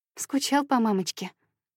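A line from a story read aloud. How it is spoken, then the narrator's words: Tender question. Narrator (Russian): ласково спрашиваю я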